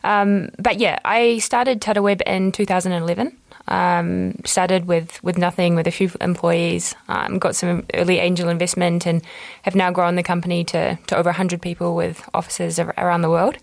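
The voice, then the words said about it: New Zealand accent. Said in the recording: “as you can probably hear, I'm originally from New Zealand, so I'll try and speak slowly so my accent doesn't come across too heavily”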